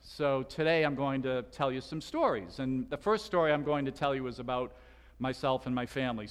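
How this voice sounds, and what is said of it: Slight Boston accent. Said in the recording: “I'm originally from Boston... I'm told I still have a bit of an accent. Is that true? Yeah, okay... Pontius Pilate had a Boston accent”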